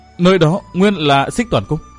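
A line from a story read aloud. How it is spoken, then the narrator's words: Chilled, stammering. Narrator (Vietnamese): Chu Tiểu Ngọc bất giác thấy ớn lạnh cả người, lắp bắp nói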